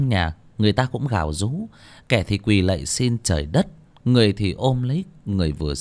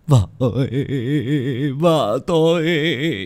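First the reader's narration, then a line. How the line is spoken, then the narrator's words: Man wailing. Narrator (Vietnamese): tiếng một người đàn ông kêu gào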